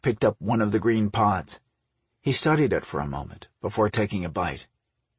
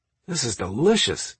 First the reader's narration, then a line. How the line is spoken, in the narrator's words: he exclaimed